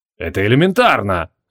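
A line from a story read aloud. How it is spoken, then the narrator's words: Irritated grumble. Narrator (Russian): раздраженно пробурчал Криол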